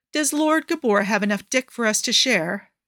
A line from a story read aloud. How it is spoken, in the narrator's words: Andromache snorts